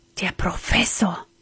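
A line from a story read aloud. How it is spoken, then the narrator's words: Frightened whisper. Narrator (German): flüsterte er erschrocken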